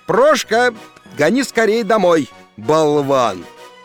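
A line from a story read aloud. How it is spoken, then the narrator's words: Shout. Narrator (Russian): на площадь выйдя крикнул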